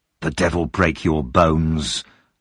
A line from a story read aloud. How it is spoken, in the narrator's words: the man said through his teeth